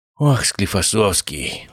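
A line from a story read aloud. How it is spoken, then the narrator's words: Sighing. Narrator (Russian): вздохнул Обухов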